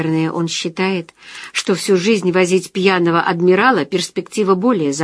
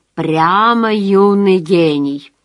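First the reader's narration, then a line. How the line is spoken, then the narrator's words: Chuckling. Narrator (Russian): хохотнул Константин Альбертович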